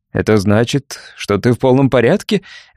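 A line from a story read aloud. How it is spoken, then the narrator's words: Laughing. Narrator (Russian): рассмеялся Пол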